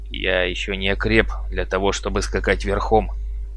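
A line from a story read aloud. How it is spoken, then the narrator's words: Mumbling. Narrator (Russian): пробурчал тот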